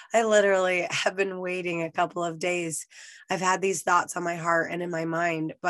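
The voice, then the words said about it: Hoarse, nearly lost voice. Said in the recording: “from the sound of my voice, I'm sure you can tell I lost my voice ... when you have no voice ... It's not really returning”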